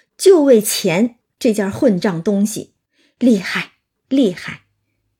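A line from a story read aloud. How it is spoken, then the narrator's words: Sighing. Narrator (Chinese): 邢大舅就叹道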